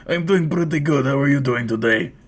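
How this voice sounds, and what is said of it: Older gravelly Eastern European accent. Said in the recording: “his voice sounded like he was, like, he was, like, an older man who sounded like he was from a former Soviet state. Has also been smoking a pack a day for, like, years ... a thick, like, Eastern European accent with a really gravelly smoker voice”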